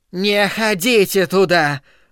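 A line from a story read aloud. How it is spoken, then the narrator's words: Croaking voice. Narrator (Russian): произнесла миссис Кармоди своим каркающим голосом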